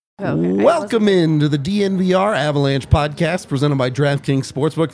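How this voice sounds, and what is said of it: Rough, hoarse voice. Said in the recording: “my voice gets through this show. It's a little rough right now ... You already sound like shit.”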